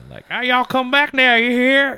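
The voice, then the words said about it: Put-on Southern American accent. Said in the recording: “I love doing a southern accent.”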